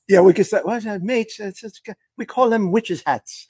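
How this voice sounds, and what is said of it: Put-on English accent. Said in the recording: “you're back to the English ... I'm back to the British ... That was more like an Ian Poulter from the PGA Tour ... You got the English though”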